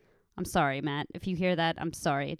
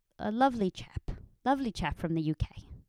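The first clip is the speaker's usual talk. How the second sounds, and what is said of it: Brief mock British accent. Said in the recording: “It just slipped out... I got the accent in my head... He's from the UK.”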